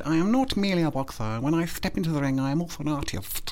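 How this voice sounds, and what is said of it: Chris Eubank impression. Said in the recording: “a Chris Eubank impression ... my Chris Eubank”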